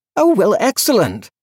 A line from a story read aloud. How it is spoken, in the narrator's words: he said brightly